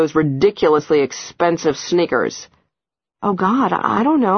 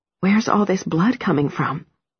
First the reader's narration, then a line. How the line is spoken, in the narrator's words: I whisper